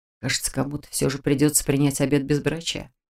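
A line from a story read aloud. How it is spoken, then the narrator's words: Resigned whisper. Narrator (Russian): обреченно прошептал кто-то из однокурсников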